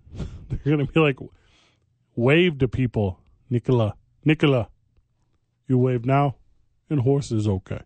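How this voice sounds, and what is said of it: Imitated foreign accent of player. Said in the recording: “Wait, I did his own accent.”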